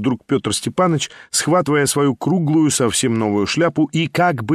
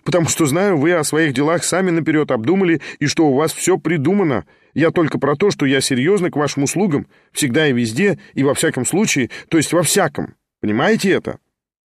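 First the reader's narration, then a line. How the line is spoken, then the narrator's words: Hurried, laughing speech. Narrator (Russian): заторопился, смеясь, Петр Степанович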